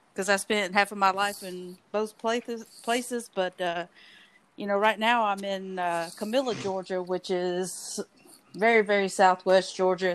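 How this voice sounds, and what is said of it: Southern US accent. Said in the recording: “where exactly are you in the south? Because that accent is just getting me”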